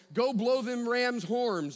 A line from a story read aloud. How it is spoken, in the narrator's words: Joshua cried